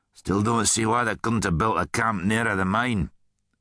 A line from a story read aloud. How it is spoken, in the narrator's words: grumbled Rudd